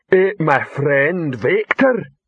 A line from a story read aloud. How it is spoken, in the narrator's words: Rock's voice bellowed